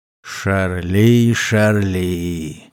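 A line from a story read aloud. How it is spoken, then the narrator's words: Sigh of mock regret. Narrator (Russian): вздохнул Серж с притворным сожалением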